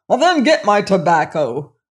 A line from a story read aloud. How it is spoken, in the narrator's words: roared the king